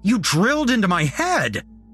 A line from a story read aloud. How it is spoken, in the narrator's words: I shouted